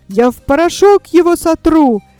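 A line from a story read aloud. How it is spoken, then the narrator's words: Exclaiming. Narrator (Russian): воскликнул кенгуру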